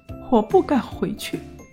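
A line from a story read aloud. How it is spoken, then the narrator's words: Child crying. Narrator (Chinese): 小孩又哭着说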